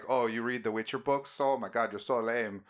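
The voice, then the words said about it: Put-on Swedish accent, Minnesotan-sounding. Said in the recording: “Swedish... Sound like Minnesotan... I nailed it... it's spot fucking on”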